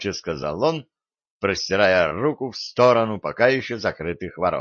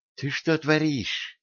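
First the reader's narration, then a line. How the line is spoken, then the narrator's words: Hissing. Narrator (Russian): зашипела на державного Василиса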